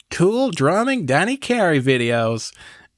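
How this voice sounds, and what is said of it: Put-on American accent. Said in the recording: “that's your American? ... that's my American accent.”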